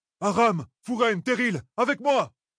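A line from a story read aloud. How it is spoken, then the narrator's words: Shouted. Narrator (French): cria Perrine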